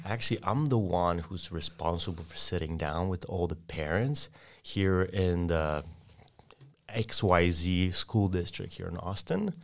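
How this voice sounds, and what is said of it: Polish accent. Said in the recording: “Sorry for my accent, but I'm an exchange student from Poland.”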